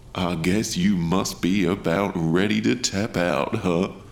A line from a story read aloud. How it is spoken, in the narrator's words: chuckled the shark man